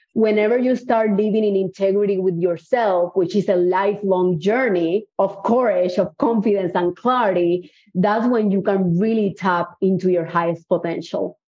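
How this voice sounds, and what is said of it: Cuban-accented English. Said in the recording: “As you can notice, I have an accent. I'm definitely not from Houston, Texas. I actually was born in Cuba.”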